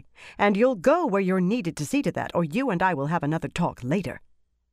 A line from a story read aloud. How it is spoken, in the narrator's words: Dialin said sharply